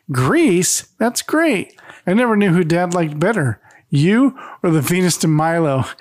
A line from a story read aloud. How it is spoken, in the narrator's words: she exclaims